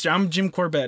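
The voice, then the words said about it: Put-on Canadian accent. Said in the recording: “I don't know why I gave him a Canadian accent right there”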